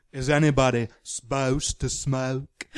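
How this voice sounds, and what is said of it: Imitates another person's voice. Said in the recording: “my Meryl impression from August Osage County”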